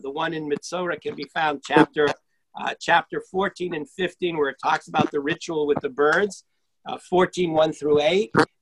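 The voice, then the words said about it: Strained, fading voice. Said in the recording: “I'm also losing my voice. ... these allergies are getting to me”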